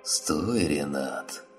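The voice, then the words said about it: Hoarse mocking imitation of another. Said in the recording (Russian): “передразнил Макса ... хриплым голосом”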